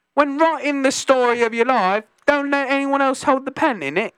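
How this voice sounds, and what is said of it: Put-on Cockney accent. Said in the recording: “I feel like that's Cockney.”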